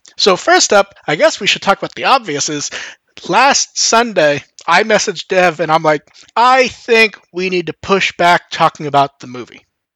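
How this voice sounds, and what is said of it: Voice sounds a bit off. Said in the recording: “I think you can hear my voice is a bit off also. I'm in about that mental, physical state.”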